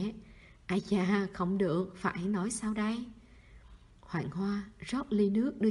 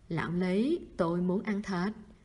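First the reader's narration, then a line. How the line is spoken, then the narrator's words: Trembling voice. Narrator (Vietnamese): Vương Thủ Dân run rẩy, nói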